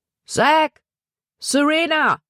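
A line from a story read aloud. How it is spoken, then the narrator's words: Calling out. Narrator (German): rief er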